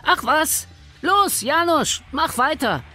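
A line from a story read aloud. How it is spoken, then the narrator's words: Called out. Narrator (German): rief Vojda dem verunsicherten Amtsdiener zu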